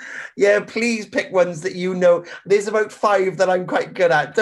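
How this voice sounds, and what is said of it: Usual voice. Nothing is said of it.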